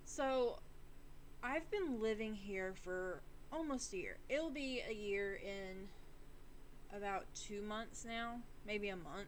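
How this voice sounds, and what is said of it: Slight Southern drawl. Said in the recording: “my accent coming through ... A little Southern drawl is going to come in and out”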